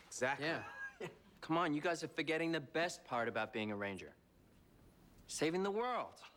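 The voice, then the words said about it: New Zealand accent. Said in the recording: “this cast is not very good at keeping the New Zealand accent out of their speeches. Or out of their talking.”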